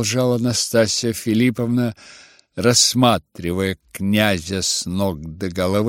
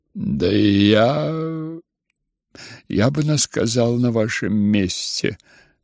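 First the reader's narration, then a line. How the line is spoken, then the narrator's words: Laughing remark. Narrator (Russian): засмеялся князь Фердыщенко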